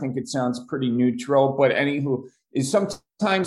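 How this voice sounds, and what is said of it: Usual voice. Nothing is said of it.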